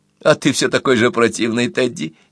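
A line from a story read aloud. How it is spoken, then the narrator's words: Woman's giggle. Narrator (Russian): хихикнула женщина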